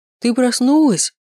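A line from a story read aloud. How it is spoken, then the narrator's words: Exclaimed. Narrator (Russian): воскликнул он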